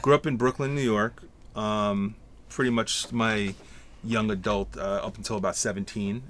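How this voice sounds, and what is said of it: New York accent. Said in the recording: “Clearly from New York by the accent.”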